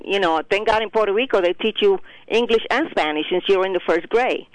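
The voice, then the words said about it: Heavy Puerto Rican accent. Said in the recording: “heavy accent that I had at the time, not as bad as I have it now”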